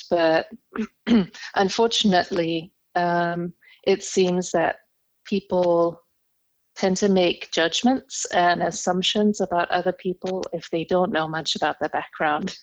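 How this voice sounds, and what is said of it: Foreign accent. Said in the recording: “you can already tell by my accent ... I immigrated to the US ... I am half English, half German”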